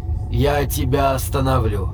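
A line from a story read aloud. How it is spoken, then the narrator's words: Soft warning. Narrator (Russian): Мягко предупреждает Шимп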